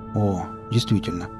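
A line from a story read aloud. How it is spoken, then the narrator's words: Mutter. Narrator (Russian): пробормотал Нарк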